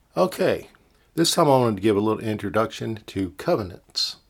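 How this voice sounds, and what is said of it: Slightly strange, strained throaty voice. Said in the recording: “I've been having some throat problems, and my throat's still a little off. So if my voice sounds a little strange”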